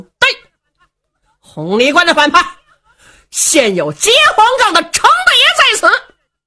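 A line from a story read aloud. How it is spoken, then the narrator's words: Loud shouting. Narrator (Chinese): 程咬金高声喊嚷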